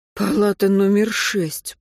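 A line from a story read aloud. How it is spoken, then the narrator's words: Muttering. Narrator (Russian): пробормотал Антон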